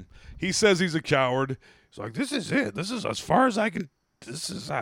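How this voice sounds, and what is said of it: Usual voice. Nothing is said of it.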